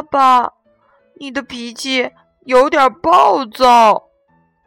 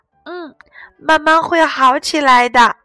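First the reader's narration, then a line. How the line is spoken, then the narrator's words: Sighing explanation. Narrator (Chinese): 火龙妈妈叹了口气，解释道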